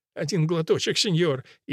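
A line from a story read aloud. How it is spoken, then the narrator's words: Wheezing. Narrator (Russian): И хрипя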